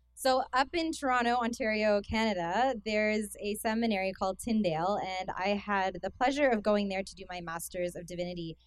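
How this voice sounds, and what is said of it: Canadian accent. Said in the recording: “I have a Canadian accent ... some of you are nodding your head like you can hear that ... it's pretty close to the American”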